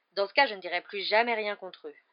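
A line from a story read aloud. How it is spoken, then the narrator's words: Weary. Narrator (French): assura Monsieur Weasley d'un ton las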